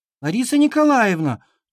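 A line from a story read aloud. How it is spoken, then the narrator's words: Whiny complaining voice. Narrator (Russian): плаксивым голосом стала жаловаться Дана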